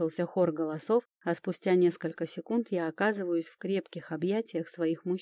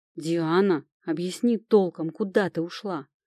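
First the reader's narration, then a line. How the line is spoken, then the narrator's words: Nervous growl. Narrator (Russian): нервно прорычал Тирон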